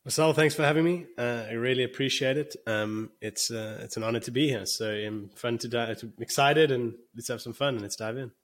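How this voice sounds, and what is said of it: South African accent. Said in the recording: “you can probably hear, I don't sound American, even though I live in America ... I'm South African”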